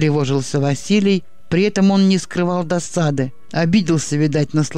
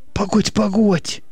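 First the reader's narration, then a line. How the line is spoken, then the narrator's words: Muttering. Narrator (Russian): бормотал тот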